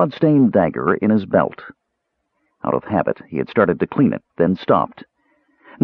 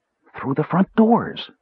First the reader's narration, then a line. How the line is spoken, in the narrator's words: Tass answered quietly